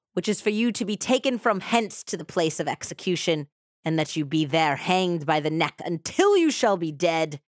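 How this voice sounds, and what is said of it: Inconsistent put-on British accent. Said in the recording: “that is so British ... My accent was going in and out there. It was mostly American.”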